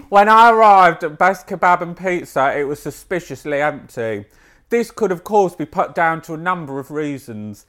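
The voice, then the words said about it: Put-on Kent accent. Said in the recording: “maybe I'll read this in a Kent accent”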